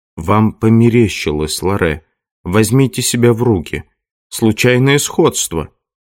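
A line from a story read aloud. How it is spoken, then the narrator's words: Gentle. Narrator (Russian): Доуэль ласково сказал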